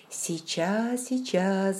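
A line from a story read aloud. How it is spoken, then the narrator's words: Tender murmur. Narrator (Russian): бормотала я нежно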